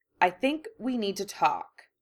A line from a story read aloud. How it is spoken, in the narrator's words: Draco said firmly